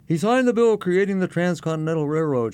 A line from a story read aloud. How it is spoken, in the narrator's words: blurt out